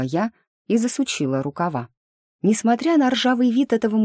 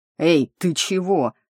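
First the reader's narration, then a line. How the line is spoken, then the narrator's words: Howling yelp. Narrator (Russian): взвыл он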